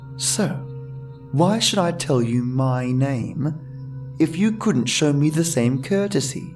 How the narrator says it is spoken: I sighed

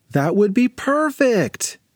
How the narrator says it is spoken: exclaimed Sophie

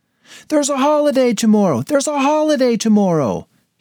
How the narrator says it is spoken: he cried

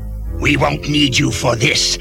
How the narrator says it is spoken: he hissed at his allies

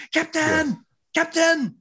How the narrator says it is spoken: Chakotay, her true love, was yelling

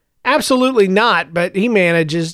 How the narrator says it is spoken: Joseph said

